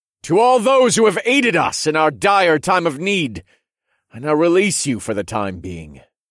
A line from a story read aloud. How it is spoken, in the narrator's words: I cried out, and my voice echoed loudly through the grand hall